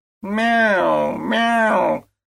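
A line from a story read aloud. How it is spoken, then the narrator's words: Sudden squeaking. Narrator (Russian): вдруг запищали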